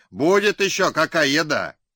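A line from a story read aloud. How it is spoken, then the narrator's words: Group shouting. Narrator (Russian): Бражники закричали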